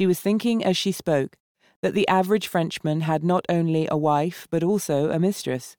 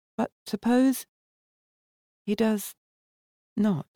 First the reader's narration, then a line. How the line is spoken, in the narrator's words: Valda asked in a very low voice